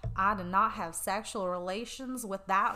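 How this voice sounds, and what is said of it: Put-on southern accent imitating someone. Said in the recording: “my southern accent”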